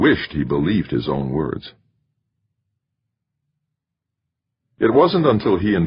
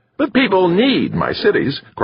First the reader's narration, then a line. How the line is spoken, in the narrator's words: cried the architect